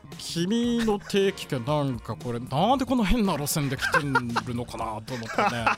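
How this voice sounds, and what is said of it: Imitates another person's voice. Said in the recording (Japanese): “小田川さんやったらどんな風に言うか。... なんでこのっていうのが似てんのよな”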